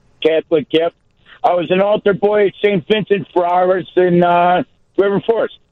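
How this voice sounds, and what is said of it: Chicago accent. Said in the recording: “people tell you that you have a Chicago accent. Obviously, you can hear it.”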